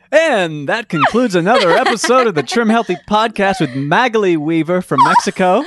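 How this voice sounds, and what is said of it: Put-on announcer voice. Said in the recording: “I was thinking about the voice. I was thinking about the announcer voice.”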